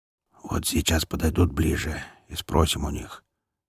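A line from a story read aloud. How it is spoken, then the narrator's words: Low owlish whisper. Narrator (Russian): низким посовитым шепотом объявил самый большой и главный негр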